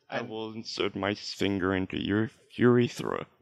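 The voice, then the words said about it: Robotic character voice. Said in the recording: “This is my robot voice ... I'm going to introduce you to the character of my robot voice.”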